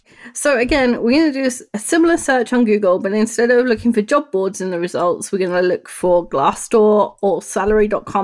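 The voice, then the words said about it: British accent. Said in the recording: “Your lovely British accent.”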